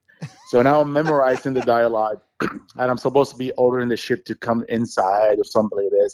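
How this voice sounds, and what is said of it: Foreign accent likened to famous actor's. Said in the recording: “they were mocking me for my sound or my accent. They were saying it sounded like Arnold.”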